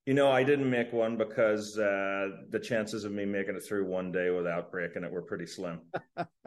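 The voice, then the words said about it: Northern Irish brogue. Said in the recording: “has a bit of the Irish brogue ... born in Northern Ireland”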